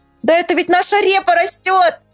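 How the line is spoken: Shouted. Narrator (Russian): закричал Павлик

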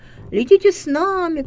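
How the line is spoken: Geese shouting. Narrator (Russian): кричали те гуси

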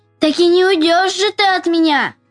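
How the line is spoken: Child shouting. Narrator (Russian): закричал мальчик

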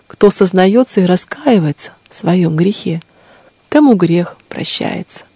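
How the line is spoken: Gentle, affectionate. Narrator (Russian): сказала ей владычица ласково

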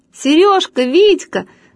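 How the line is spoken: Shouting at once. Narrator (Russian): закричала сразу Люська

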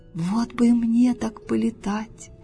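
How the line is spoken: Sighing toad. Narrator (Russian): вздохнула жаба

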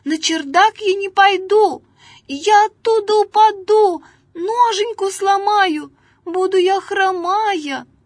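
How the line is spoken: Fly shouting. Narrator (Russian): с воза муха закричала

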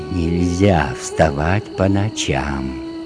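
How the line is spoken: Quiet menacing whisper. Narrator (Russian): тихо и грозно шепнул он ему

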